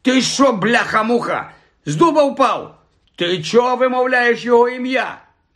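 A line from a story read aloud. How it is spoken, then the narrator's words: Shouted. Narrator (Ukrainian): закричав Стен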